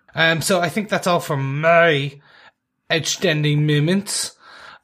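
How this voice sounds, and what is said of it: Bad put-on French accent. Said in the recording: “I'm trying to put in my French accent ... that's just terrible”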